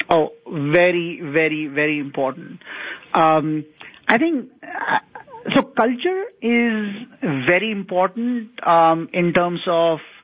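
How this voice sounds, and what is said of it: Foreign accent. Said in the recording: “you have an accent, which indicates that you're, you know, from another part of the world”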